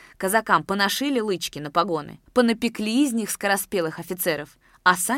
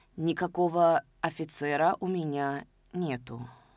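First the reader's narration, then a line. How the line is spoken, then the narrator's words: Muffled, hollow voice. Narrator (Russian): глухо сказал Яков Лукич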